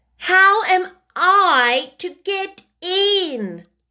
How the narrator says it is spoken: Alice asked again, in a louder tone

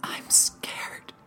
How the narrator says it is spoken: she whispered

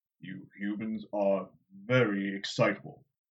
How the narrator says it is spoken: Loial said in that bass rumble

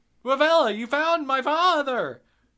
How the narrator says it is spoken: You exclaim, but then bewilderment overwhelms your excitement, and you burst out

